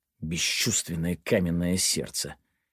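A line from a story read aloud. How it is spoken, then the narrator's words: Muttering. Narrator (Russian): пробормотал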